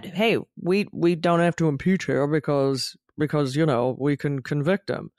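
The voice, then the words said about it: Weak Mitch McConnell impression. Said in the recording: “I don't do a very good Mitch McConnell impersonation.”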